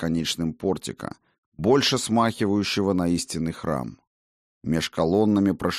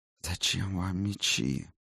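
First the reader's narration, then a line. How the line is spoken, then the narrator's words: Sighing. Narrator (Russian): вновь вздохнул голос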